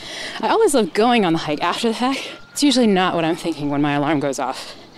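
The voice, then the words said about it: Out of breath while talking. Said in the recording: “Right now, I'm out of breath because I'm on my daily hike at a local state park.”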